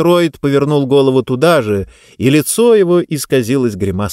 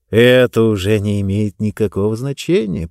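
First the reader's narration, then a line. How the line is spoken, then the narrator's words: Cooing. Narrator (Russian): проворковал он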